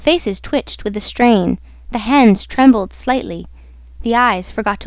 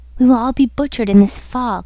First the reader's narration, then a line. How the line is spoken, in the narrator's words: murmured another